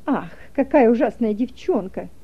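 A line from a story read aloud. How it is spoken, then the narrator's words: Contemptuous mutter. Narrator (Russian): пробормотала она презрительно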